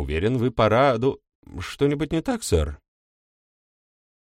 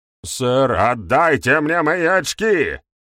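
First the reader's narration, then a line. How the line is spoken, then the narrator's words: Howling. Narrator (Russian): Взвыл ГМ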